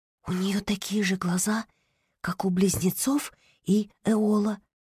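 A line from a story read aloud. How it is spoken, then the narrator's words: Whisper. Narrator (Russian): прошептала она Топинаду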